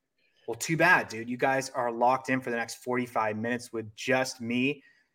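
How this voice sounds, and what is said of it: Squeaky Southern California voice. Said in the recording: “this is a weird voice. This is not the velvet baritones that I'm used to. This is some squeaky SoCal bullshit”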